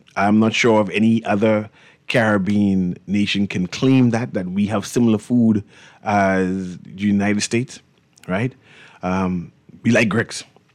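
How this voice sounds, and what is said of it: Bahamian accent. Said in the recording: “People are familiar with our accent, right? ... we have a distinctive accent ... uniquely Bahamian”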